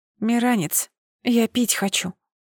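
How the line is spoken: Whisper muffled into mattress. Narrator (Russian): шепнула в матрас

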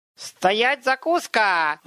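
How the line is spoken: Little imp's howl. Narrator (Russian): взвыл бесенок

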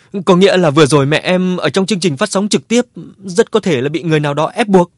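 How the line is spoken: Sobbing question. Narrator (Vietnamese): Cô khóc nức nở hỏi

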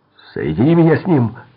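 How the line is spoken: Shouting. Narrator (Russian): закричал Феликс

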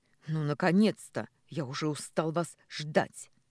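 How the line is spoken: Barked right into ear. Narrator (Russian): Рявкнули почти в самое ухо

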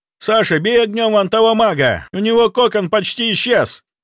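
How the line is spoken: Shout. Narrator (Russian): прокричал Андрей

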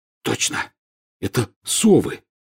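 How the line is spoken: Hoarse. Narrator (Russian): хрипло сказал Рон

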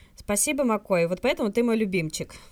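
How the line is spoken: Loud announcement. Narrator (Russian): громко сообщает Джим

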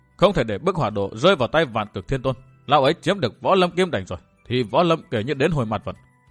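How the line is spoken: Stern, emphatic voice. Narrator (Vietnamese): Chàng gằn giọng

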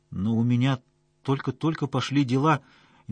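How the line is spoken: Hesitant objection. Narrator (Russian): неуверенно возразила Янина

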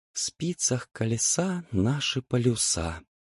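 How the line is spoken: Whisper. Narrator (Russian): прошептала девочка

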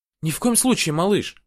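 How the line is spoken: Exclaiming. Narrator (Russian): воскликнула она

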